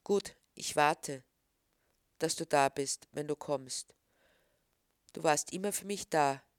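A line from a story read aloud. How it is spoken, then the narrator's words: Sad. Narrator (German): traurig sagen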